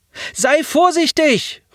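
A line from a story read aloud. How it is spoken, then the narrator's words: Called after. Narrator (German): rief nach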